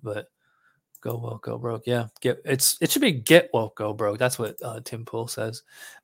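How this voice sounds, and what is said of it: Strained, hoarse voice. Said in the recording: “I'm losing my voice because I haven't drank anything.”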